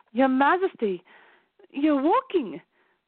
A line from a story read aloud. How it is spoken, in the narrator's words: the nursemaid said excitedly